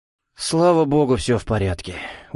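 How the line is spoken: Tired father. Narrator (Russian): устало ответил отец

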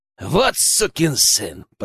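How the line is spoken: Said through gritted teeth. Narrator (Russian): процедил Генка

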